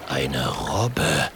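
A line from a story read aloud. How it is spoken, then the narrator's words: Whispered. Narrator (German): flüstert er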